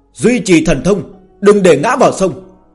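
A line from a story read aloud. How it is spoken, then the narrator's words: Hurried raised commanding voice. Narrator (Vietnamese): Lăng Tiêu công tử vội vàng cao giọng chấn chỉnh quân ngũ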